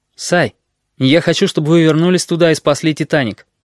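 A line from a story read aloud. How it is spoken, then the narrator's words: Sharp, abrupt. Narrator (Russian): резко произнес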